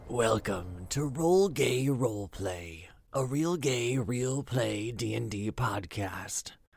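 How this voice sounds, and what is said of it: Sexy spooky voice. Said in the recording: “that was a really sexy spooky voice”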